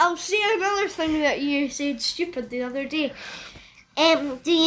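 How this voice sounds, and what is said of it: Usual voice. Nothing is said of it.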